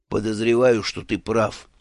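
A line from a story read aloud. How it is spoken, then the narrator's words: Grumbling boss. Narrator (Russian): проворчал шеф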